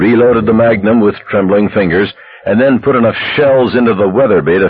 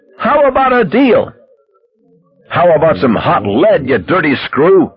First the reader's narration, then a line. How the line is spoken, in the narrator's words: he screamed at Fenner